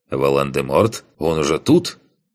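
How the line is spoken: Wry snort. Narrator (Russian): Хмыкнул я

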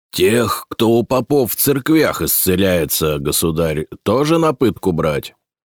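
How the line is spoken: Calm question. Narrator (Russian): спокойно спросил боярин

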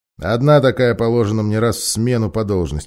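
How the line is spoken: Grumbling. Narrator (Russian): пробурчал Арториус

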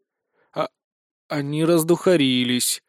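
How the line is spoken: Sad sigh. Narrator (Russian): с грустью вздохнул я

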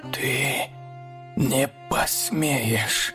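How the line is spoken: Fearful hiss. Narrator (Russian): Прошипел он, но в его голосе звучал страх

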